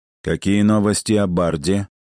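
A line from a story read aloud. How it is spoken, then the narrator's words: Tense, feigned boredom. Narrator (Russian): спросил Бэйн, и хотя он пытался говорить скучающим тоном, Кая слышала напряжение в его голосе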